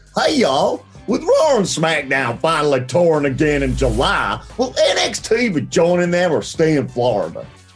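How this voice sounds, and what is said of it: Put-on Southern drawl, like AJ Styles. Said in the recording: “Southern drawl optional ... Oh my God, AJ Styles, is that you?”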